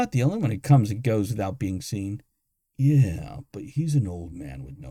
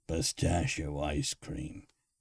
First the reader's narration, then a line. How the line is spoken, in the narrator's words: Croker muttered from the back of the room